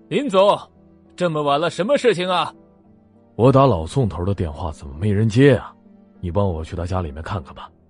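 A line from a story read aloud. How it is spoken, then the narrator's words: Loud voice. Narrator (Chinese): 那人大声的说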